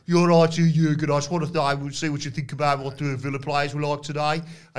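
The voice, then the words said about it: Imitated Midlands accent. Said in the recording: “Aston Villa, for our American listeners, play in the Midlands, where Pete Dunne's from, where they've got this accent.”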